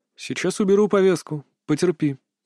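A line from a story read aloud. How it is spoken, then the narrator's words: Outwardly calm. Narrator (Russian): внешне спокойно произнес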